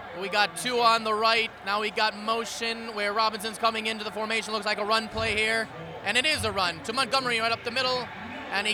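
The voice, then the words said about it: Imitates a sports announcer's voice. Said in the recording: “my best Al Michaels impersonation. ... That's your Al Michaels?”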